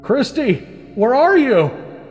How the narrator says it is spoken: Andrew yelled out in the distance

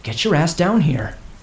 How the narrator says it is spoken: whispered fiercely

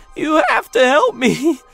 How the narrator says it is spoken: she cried again, her voice trembling

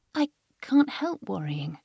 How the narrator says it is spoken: Carrie said in a small voice

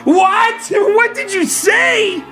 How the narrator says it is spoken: screamed out again

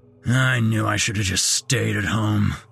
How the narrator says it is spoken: growled some dumpy-looking bearded man

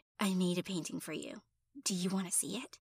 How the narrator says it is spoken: he whispered in my ear

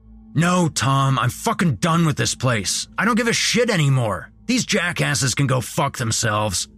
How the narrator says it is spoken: Jason yelled

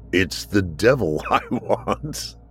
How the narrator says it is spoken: laughed

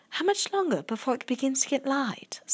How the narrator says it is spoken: Sophie whispered

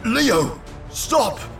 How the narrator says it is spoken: Chris shouted

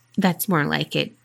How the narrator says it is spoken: he said quietly

